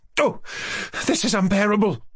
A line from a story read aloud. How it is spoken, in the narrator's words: cried Varia